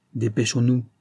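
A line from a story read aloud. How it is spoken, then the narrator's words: Plain. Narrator (French): dit Simon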